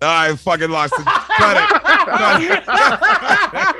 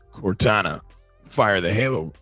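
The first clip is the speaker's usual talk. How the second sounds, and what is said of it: Master Chief character voice impression. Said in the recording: “his Master Chief impersonation.”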